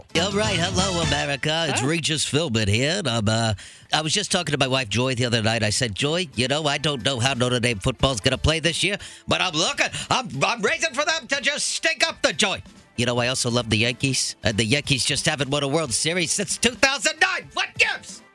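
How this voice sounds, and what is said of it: Imitates another person's voice. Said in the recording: “That was my Regis impression.”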